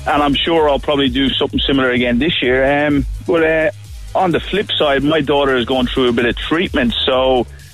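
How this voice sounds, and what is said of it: Irish accent. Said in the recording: “Where are you from? Ireland? ... you're good at the accents”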